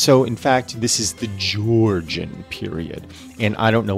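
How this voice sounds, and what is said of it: Usual voice. Nothing is said of it.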